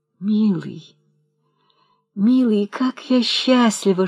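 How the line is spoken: Whispering. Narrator (Russian): шептала молодая женщина

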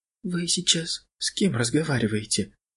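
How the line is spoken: Frightened whisper. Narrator (Russian): Все так же испуганно прошептала анафема

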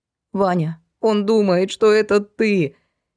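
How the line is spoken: Ugly squeak, mother. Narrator (Russian): Некрасивым голосом пискнула мать

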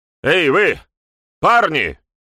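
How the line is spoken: Bark. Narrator (Russian): гаркнул Текс

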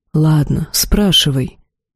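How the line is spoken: Surprisingly soft, lord of chaos. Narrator (Russian): неожиданно мягко произнес властитель хаоса

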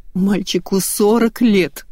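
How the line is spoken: Sob. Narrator (Russian): всхлипнула Инна

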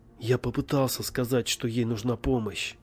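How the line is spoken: Plain. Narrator (Russian): сказал я

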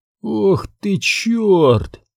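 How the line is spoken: Breathed out. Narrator (Russian): выдохнул Терри

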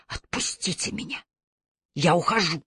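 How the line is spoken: Strangled hoarse rasp. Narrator (Russian): Вальма Сикклифф сдавленно прохрипела

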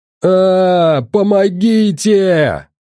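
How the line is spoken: Yell. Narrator (Russian): заорал Толян

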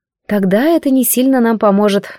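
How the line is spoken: Sighing. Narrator (Russian): вздохнула я

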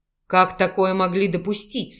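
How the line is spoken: Stern shocked growl. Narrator (Russian): сурово прорычал Дмитрий, поражаясь услышанным словам

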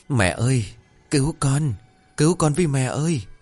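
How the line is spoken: Child's weak whimpering sobs. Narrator (Vietnamese): một tiếng rên rỉ yếu ớt, một tiếng khóc thút thít của một đứa trẻ

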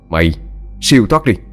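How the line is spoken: Loud shout. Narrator (Vietnamese): Quân quát lớn

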